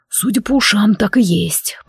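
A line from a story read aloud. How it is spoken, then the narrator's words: Dragon whispering. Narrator (Russian): прошептал дракон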